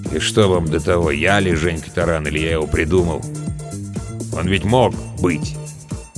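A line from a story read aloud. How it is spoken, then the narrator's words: Gloomy. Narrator (Russian): мрачно добавил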